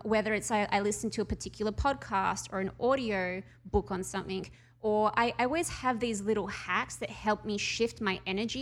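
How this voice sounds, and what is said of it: Noticeable foreign accent. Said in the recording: “I love the accent. I love the accent.”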